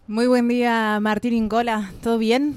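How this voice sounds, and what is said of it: Polished radio announcer voice. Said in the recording (Spanish): “qué voz panamericano. Qué voz de locutora me puso ... puso ahí, actitud”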